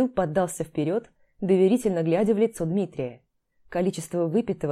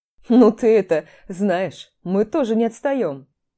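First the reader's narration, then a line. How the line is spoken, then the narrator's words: Laughing. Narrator (Russian): засмеялся Дима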